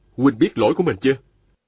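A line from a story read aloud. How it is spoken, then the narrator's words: Stern question. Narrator (Vietnamese): Viên Thừa Chí nghiêm giọng hỏi hắn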